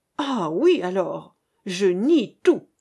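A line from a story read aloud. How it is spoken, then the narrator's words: Furious exclamation. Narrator (French): s'écria-t-il, littéralement écumant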